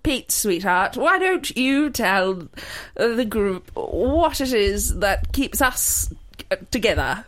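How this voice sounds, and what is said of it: Attempted English accent. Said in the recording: “your authentic English accent. What is this accent as well? Does it sound like ... Brooklyn? ... That was shit.”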